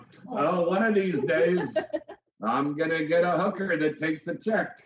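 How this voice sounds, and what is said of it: Cartoon character voice. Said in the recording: “you sound like that cartoon voice... It was Family Guy.”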